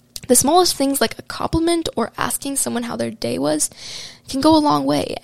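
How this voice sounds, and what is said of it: Unwell, rough-sounding voice. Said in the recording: “sorry about my voice. I have like this cold thing going on, but I keep coughing into the mic”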